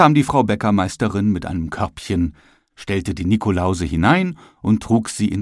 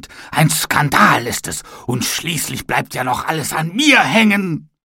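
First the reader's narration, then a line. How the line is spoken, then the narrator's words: Angry shout. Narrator (German): schrie er wütend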